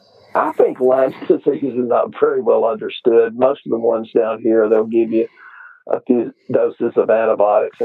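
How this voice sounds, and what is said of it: Long Texas drawl. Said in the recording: “is that a Texas accent... I've got that long Texas drawl... you sound like a dumb country hick”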